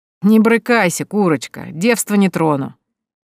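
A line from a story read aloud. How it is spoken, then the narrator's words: Lewd giggling guard. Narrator (Russian): Похабно хихикнул стражник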